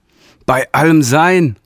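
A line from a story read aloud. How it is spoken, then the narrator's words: Panicked cry. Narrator (German): rief der Realligator panisch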